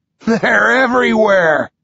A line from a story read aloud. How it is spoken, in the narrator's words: he laughs